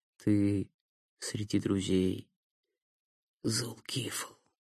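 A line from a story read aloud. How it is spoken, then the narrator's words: Muttering. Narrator (Russian): пробормотал Никита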